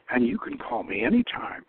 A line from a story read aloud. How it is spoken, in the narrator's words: she purred